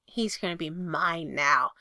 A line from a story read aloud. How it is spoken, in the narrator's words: Cooper snarls into Derek's face